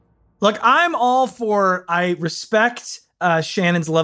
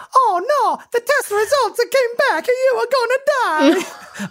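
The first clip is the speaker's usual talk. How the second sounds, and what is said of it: Mario character voice. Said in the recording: “that Mario impression is a little crazy ... hurting my feelings and my ears with that accent”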